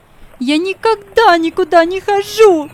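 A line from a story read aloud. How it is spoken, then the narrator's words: Frantic shout. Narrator (Russian): закричала она вне себя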